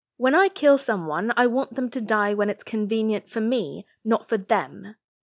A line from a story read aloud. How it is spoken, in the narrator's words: Tin Guang Yao says sharply